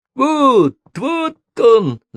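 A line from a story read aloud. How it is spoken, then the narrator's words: Horrified shout. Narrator (Russian): закричал он, словно Борис Годунов, увидевший окровавленного мальчика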